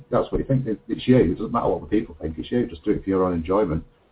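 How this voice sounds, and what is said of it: Broad northern English accent. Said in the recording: “I've got a very broad northern accent”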